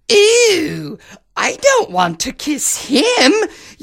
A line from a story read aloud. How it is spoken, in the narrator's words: wailed the lady-in-waiting